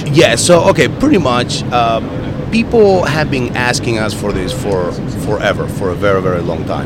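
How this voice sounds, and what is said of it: Hoarse, strained voice. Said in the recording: “I'm losing my voice. here is losing his voice.”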